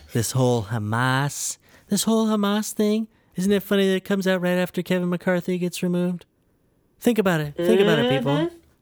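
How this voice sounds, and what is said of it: Imitates another person's voice. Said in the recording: “my Trump impression. It's really good.”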